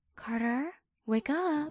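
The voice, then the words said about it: Hushed whisper. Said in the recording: “whispering in my ear. ... in a hushed voice.”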